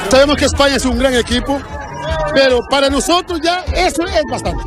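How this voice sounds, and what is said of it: Odd mixed Galician Cape Verdean accent. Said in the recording (Catalan): “parlaven com si foren Diego Cigala ... accent així un poquet raro ... tenen accent gallec, de Cabo Verde, una mescla ... Mesclaillo estrany”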